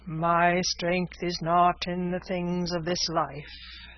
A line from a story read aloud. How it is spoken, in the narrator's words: said the divine, speaking in a hollow, sepulchral voice